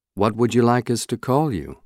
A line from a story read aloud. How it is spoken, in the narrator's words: I asked him quietly